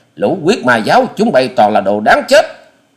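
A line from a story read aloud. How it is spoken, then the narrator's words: Roaring. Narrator (Vietnamese): Hoa Sĩ Kiệt gầm lên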